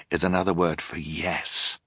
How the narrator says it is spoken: Klaus explained quietly

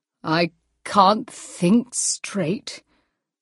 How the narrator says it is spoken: said Hugh in his thick, drunken voice

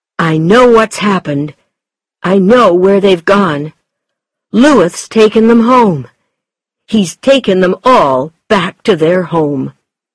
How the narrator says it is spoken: shouted

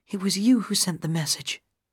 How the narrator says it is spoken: Gale whispered

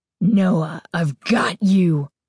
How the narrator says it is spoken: Carly Beth shrieked, her voice deep, raspy, evil

